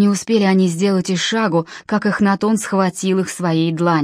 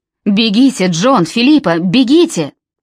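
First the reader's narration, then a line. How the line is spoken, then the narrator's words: Shouting. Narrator (Russian): Нимрод закричал им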